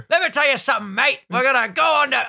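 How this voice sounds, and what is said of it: Attempted Australian accent, sounds piratey. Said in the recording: “I get like British every fucking time I try an Australian accent ... That was way better. ... I sound like a pirate.”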